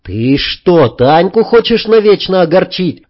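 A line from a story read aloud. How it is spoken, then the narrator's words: Yelling. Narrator (Russian): заорал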